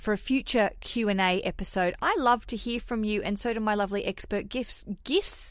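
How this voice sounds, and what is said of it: Put-on New Zealand accent. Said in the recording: “I'm talking in a New Zealand accent”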